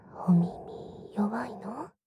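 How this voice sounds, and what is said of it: Whispering close to the ear. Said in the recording (Japanese): “ささやかれるの感じる？”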